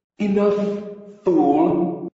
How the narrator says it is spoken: came a silvery peal of the fairy queen's sigh

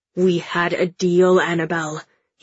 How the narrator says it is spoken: he snarls

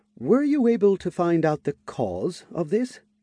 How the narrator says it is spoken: asked in a hesitant tone

